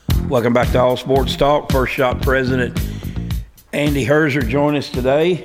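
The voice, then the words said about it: Rough, worn-out speaking voice. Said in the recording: “It tells you how bad my voice has gotten.”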